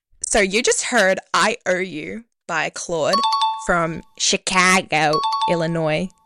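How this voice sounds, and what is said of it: Attempted Chicago accent, not good. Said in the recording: “That was my impression of a Chicago accent. ... It wasn't good”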